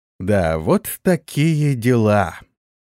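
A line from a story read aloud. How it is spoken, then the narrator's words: Drawn out, very upset. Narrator (Russian): протянул сильно огорченный Игиет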